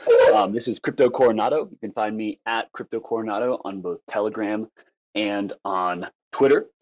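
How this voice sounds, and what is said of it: Nepali accent. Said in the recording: “If you can't tell from my voice, I'm from Nepal”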